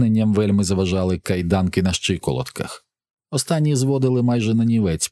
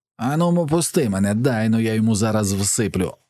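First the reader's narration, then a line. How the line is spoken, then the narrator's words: Fervent shout. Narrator (Ukrainian): завзято вигукнув Персі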